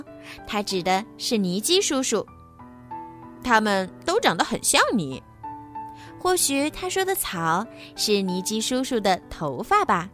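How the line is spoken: Cheerful, grinning. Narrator (Chinese): 布朗提笑嘻嘻地说

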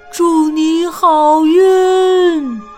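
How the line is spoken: Shouting. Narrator (Chinese): 大灰兔喊道

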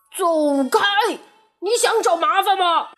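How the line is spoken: Shouting. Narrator (Chinese): 犀牛喊道

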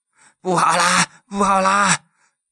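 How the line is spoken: Panting, out of breath. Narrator (Chinese): 严方明一边喘着气，一边说道

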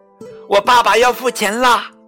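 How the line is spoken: Loud shout. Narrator (Chinese): 用店里所有人都能听到的声音叫了起来

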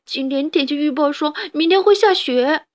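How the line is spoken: Crying. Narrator (Chinese): 哈布斯边哭边说

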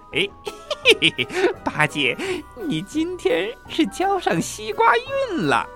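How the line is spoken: Laughing heartily. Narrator (Chinese): 孙悟空哈哈大笑说

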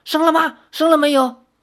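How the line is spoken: Repeated anxious questioning. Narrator (Chinese): 他们追问了好几声

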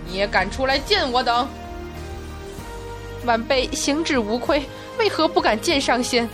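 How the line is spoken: Harsh laugh from above. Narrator (Chinese): 一声厉然而笑自云层之上传下来

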